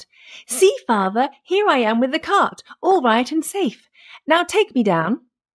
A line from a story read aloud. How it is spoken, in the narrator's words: Tom Thumb, seeing his father, cried out